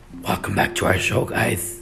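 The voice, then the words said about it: Creepy voice. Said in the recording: “That's my creepy voice, ... it's pretty creepy.”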